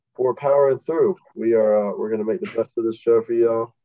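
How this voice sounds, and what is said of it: Sick-sounding voice. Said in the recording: “As you can probably hear by my voice, I feel like crap.”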